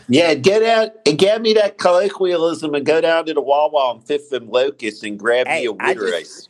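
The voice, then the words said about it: Put-on Philly accent, swallowed L's. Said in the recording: “colloquialism is perhaps the worst word ever to say with a Philly accent, because you swallow all the L's”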